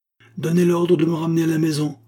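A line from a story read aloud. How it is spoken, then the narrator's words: Breathless doctor exclaiming. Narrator (French): s'écria le docteur hors d'haleine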